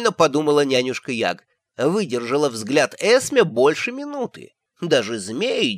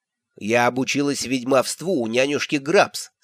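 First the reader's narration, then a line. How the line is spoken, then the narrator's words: Plain. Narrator (Russian): сказала матушка Ветровоск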